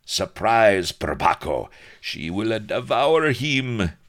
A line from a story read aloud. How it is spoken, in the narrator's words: he roared